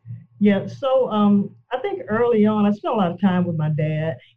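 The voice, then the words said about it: Southern Alabama accent. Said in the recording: “I'm assuming you're from Alabama. ... Accent, okay?”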